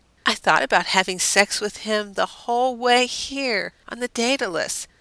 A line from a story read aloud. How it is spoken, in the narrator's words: Deanna said with a dreamy sigh